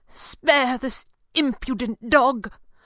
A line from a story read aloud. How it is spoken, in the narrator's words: pleaded as if for his life